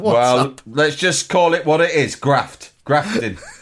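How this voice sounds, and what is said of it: Put-on northeastern English accent. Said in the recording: “Why are you doing a northeastern accent? ... That's the voice I do when I'm going to work.”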